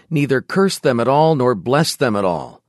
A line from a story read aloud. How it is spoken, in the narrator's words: The king of Moab, discouraged and distressed, exclaimed